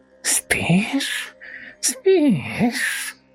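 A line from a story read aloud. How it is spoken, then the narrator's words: Hissing. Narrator (Russian): Прошипел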